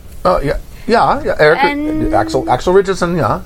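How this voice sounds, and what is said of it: Thick German accent. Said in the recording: “Thick German accent, but he speaks English.”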